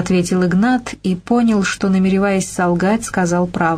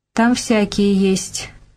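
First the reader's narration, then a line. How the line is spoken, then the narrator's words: Dry reply. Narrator (Russian): сухо отозвалась Полина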